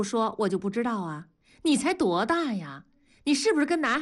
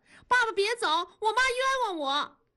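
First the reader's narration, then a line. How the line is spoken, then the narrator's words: Quick urgent cry. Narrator (Chinese): 燕妮马上就喊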